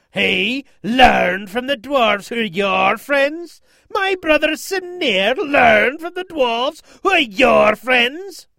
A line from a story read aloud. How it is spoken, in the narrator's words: roared in greater rage than before